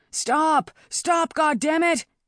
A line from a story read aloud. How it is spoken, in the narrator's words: he yelled